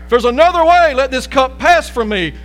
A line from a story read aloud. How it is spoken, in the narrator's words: he even cried out a prayer